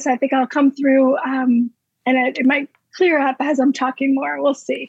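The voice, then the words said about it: Crackly voice from a cold. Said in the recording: “I'm coming off of a little bit of a cold, so my voice is a little crackly”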